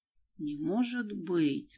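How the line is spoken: Mumbling. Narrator (Russian): бормотал он

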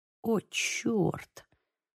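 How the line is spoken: Whisper. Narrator (Russian): прошептал Лука

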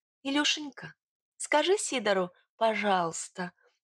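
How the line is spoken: Gentle smiling. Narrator (Russian): ласково улыбнулась я богатырю

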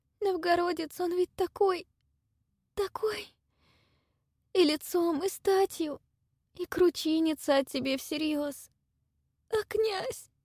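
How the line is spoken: Sobbing again. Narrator (Russian): Вновь всхлипнула она

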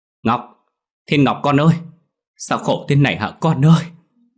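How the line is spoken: Anguished wail. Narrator (Vietnamese): Bà phi gào lên

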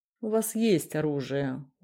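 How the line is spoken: Tired, curt. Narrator (Russian): устало отрезал Митрохин

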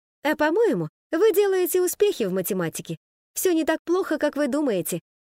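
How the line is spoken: Cheerful. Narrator (Russian): весело сказала Ода

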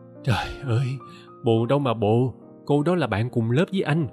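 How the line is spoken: Sighing. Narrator (Vietnamese): Tôi thở dài

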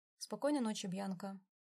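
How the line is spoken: Dry reply. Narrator (Russian): сухо ответил

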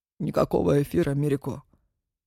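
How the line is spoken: Soft but firm interruption. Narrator (Russian): Мягко, но решительно перебил ее Зураб

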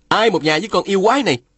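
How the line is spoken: Shouting. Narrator (Vietnamese): Phùng Bất Phá quát lên

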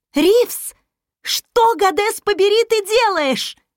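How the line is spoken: Shrill shriek. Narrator (Russian): взвизгнула Флора

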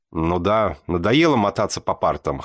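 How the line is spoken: Snort. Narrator (Russian): хмыкнул я

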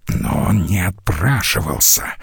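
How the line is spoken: Hiss. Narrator (Russian): прошипел де Сверте

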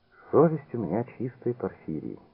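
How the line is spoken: Quiet. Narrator (Russian): тихо сказала Клавдия

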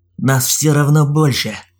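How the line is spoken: Snorting. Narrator (Russian): Хмыкнул Олег

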